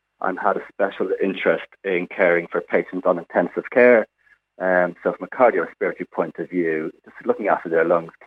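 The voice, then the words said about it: Irish accent. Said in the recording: “as you can probably tell from my accent, I'm not quite from New Zealand. So I'm an Irish-trained physiotherapist”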